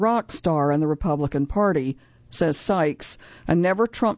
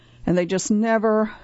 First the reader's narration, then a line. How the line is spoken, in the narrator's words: lets out an exasperated sigh